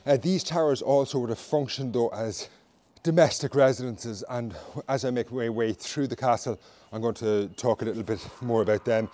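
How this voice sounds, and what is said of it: Out of breath, panting. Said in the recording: “I'm sure you can hear that I'm pretty out of breath”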